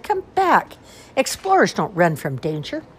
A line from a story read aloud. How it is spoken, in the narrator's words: Sarah cried